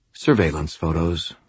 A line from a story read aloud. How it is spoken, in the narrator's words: I said quietly